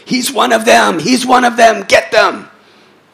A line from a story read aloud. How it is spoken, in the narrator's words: they would scream out to the public